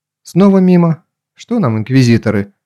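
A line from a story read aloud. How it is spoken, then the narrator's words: Calm with underlying fury. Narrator (Russian): Ольга говорила спокойно, но что-то яростное в ее тоне прорезалось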